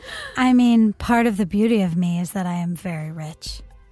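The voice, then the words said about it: Exaggerated sexy, seductive reading. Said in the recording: “try to make that sexual ... I'm not going to do a Donald Trump impression ... I'm just going to be really sexy”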